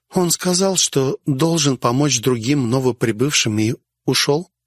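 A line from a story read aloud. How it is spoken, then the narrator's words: Plain. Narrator (Russian): ответила Уголек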